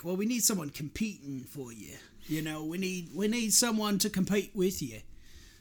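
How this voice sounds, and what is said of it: Rough Simon Cowell impression. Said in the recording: “that's my rough Simon Cowell out, you know, accent.”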